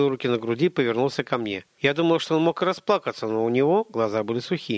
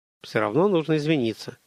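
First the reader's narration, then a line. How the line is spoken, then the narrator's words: Mumbled. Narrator (Russian): промямлил он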